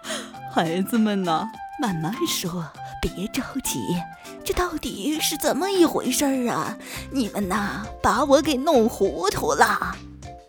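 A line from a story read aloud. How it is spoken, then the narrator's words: Cheerful old woman. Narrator (Chinese): 熊婆婆笑呵呵地说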